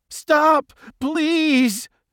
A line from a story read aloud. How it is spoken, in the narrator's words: Jaws 2 pleaded with the king